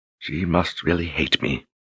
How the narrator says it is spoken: Anne whispered

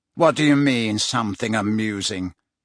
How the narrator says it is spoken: He said irritably

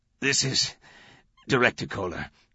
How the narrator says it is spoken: said, wheezing

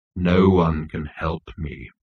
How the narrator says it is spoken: intoned Marvin

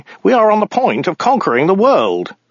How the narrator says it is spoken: interrupted Ogdai urgently

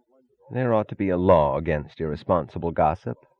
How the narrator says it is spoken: said Taggart sullenly

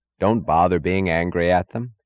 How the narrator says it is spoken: he said

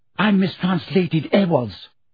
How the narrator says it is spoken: said Hermione furiously

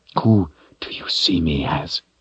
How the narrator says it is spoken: the Seeker whispered

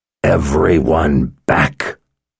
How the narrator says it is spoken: the man growled

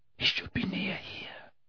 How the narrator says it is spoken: whispered Harry, convinced that every step was going to bring the ragged form of Sirius into view upon the darkened floor

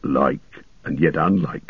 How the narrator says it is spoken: muttered Gimli

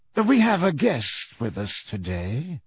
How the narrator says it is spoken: said Snape in his low, sneering voice

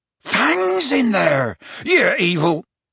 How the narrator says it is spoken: Hagrid bellowed

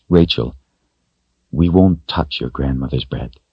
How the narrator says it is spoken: Richard said in a soft voice

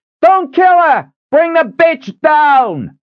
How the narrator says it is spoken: Another yelled

